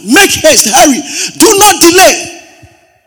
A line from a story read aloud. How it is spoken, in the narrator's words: Jonathan cried after the lad